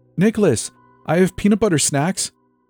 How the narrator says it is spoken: squeaked

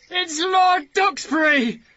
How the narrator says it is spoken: Watt shouted with joy

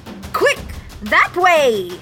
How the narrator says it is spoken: the captain shouted

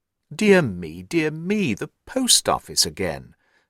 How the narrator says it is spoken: Holmes sighed wearily

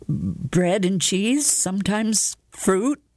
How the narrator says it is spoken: he stammered

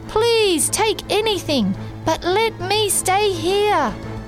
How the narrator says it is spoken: In my head, I was screaming and praying

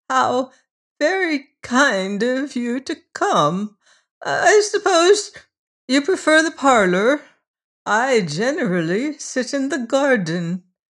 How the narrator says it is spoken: she said in her thin, treble voice

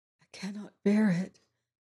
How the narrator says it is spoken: whispered to herself

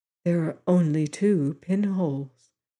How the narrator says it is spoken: said Madame Story softly

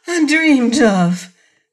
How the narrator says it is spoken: cried Mercedes, throwing up her hands in dainty dismay

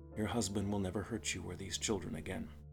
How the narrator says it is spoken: I said quietly

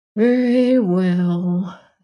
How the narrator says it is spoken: said the corkscrew sadly

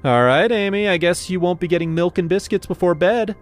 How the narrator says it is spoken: I said loudly

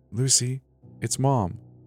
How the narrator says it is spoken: whispered

